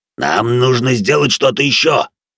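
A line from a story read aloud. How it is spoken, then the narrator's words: Growling dwarf. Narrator (Russian): рычал гном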